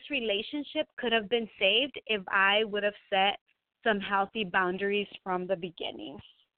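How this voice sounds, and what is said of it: Spanish accent in English. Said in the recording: “my first language is Spanish. I'm sure you can hear my accent over the radio.”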